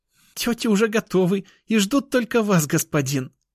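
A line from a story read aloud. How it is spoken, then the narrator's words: Giggling. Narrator (Russian): Хихикнула она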